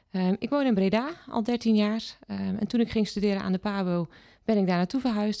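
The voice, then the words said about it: Mild Zeeuws-Vlaams regional Dutch accent. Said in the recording (Dutch): “Daarvoor heb ik altijd gewoond in Zeeuws-Vlaanderen. Daar ben ik opgegroeid. ... We gaan kijken of we gaan luisteren of we het nog een beetje kunnen horen. ... overigens een mooi accent.”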